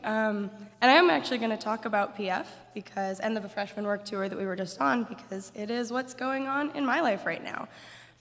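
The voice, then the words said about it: Hoarse, worn-out voice. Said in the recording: “You can tell my voice is already gone from my fun week.”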